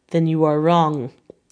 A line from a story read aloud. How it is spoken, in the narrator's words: said solemnly